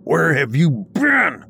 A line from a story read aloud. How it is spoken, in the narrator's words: My father's voice screaming at me in the dead of the night